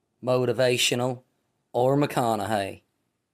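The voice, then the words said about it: Poor Matthew McConaughey impression. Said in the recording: “my horrible Matthew McConaughey impersonation”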